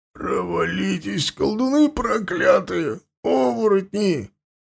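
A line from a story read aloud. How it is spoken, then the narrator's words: Hoarse, straining rasp. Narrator (Russian): хрипел Туган, силясь подняться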